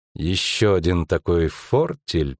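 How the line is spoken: Through gritted teeth. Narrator (Russian): процедила Йеннифер

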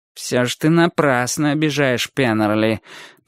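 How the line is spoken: Grumbling. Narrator (Russian): проворчал второй седок

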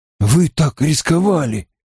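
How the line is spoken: Breathless exhale. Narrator (Russian): выдохнул Перин

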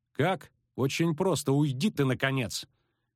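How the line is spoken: Shout. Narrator (Russian): крикнула она

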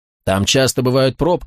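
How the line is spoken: Calm. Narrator (Russian): спокойно ответил Тони

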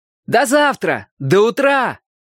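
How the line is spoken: Shouting. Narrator (Russian): крикнул я

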